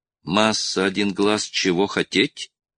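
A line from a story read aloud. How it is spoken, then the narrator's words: Trembling voice. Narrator (Russian): дрожащим голосом спросил Вонг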